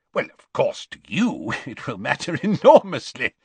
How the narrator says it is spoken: said Scrimgeour with a laugh

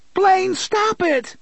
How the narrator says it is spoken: Susanna shrieked

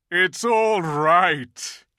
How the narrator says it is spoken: shouted Aslan joyously

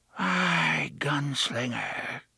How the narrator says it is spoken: she breathed

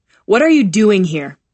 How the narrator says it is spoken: snarl

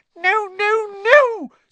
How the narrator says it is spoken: squeaked Dobby

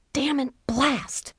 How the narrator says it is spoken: she whispered

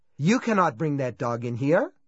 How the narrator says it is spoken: he said sharply

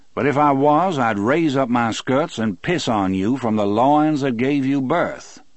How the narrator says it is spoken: Moores said in his cultured southern voice

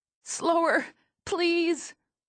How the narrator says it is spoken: plead between contractions

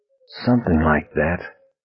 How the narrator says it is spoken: Vinny whispered

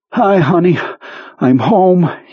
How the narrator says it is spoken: he panted

